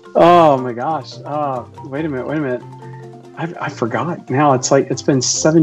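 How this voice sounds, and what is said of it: Usual voice. Nothing is said of it.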